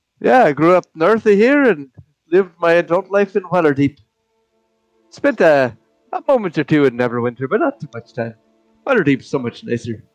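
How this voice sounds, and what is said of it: Funny put-on character accent. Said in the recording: “Where did you get the funny accent?”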